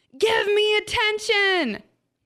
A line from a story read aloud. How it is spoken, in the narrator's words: yelled